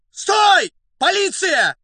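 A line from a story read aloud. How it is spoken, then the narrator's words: Hoarse, agitated shout. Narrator (Russian): осипшим от волнения голосом крикнул Фондорин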